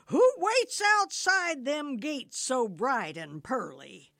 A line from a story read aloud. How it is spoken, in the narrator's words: Peter cried